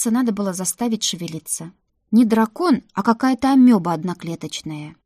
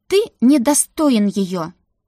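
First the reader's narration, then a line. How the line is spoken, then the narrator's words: Said sharply. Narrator (Russian): резко сказала я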